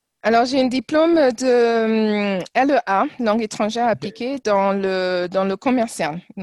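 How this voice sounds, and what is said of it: Slight foreign accent in French. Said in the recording (French): “Parles parfaitement français, mais tu as toujours ce, petit accent”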